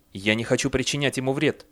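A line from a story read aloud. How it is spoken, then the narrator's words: Hurried. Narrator (Russian): торопливо заговорил Бейли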